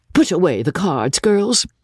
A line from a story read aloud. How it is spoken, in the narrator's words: cried my lady in a great tremor